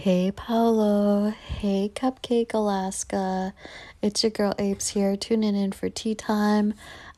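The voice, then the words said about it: Hoarse, sore-throat voice. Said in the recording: “my voice doesn't sound that sexy. I have a sore throat”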